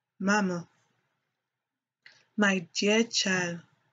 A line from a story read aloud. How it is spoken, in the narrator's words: said Mrs